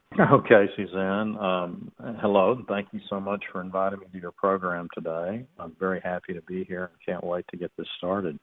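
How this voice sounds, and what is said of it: Non-New England regional accent. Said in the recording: “you can tell by this accent, everybody, that ... is not from New England”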